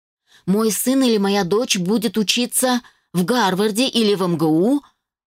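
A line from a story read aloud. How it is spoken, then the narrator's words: Shouting out. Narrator (Russian): выкрикнул он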